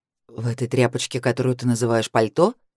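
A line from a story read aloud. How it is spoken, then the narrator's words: Skeptical grunt. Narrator (Russian): Мужчина хмыкнул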